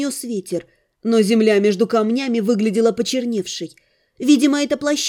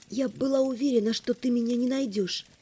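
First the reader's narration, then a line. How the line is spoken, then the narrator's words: Quiet. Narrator (Russian): тихо сказала я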